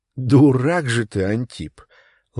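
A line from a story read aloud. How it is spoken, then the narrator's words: Affectionate. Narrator (Russian): ласково сказала Марфа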